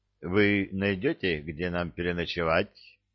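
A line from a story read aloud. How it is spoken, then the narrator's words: Calm grumble. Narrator (Russian): как-то спокойно пробурчал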